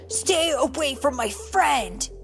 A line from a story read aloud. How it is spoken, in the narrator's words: he shouted